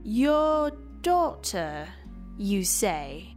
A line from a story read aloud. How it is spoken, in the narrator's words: Kentana said slowly